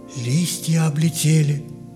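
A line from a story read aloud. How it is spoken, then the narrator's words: Quiet, as if to herself. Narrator (Russian): тихо, как будто про себя произнесла Эля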